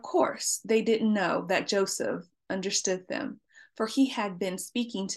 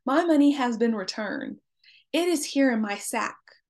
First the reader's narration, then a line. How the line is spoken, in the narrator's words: he exclaimed to his brothers